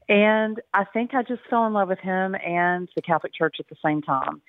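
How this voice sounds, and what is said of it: Texan accent. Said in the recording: “I'm a sixth-generation Texan, so my accent usually gives me away, and I grew up in the panhandle of Texas”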